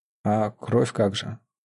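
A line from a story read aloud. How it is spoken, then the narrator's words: Calm question. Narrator (Russian): уже спокойно переспросил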